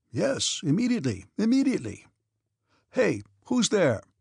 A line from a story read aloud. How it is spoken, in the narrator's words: he called out in a tone only used by persons who are certain that those they call will rush to obey the summons